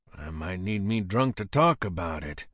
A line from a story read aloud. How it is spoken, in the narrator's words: I grumbled